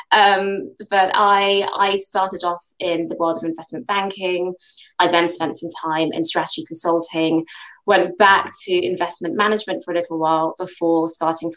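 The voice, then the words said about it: British accent. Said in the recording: “Nigerian heritage, but born and bred in the UK. As you can tell, my accent suggests I've been here for far too long.”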